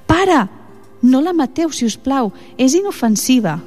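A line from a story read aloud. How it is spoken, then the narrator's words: Girl pleading. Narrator (Catalan): va suplicar la nena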